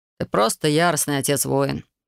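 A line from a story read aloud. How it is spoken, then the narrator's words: Grumbled. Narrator (Russian): проворчал Тимур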